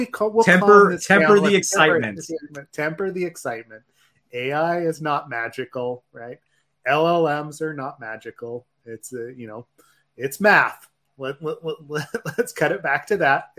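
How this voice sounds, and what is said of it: Calm public-radio announcer voice. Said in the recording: “put on my NPR voice”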